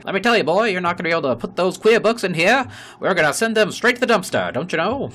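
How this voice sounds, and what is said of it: Put-on old-timey radio host voice. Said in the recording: “that's probably not a Mississippi accent ... Sound like an old-timey, like, radio host.”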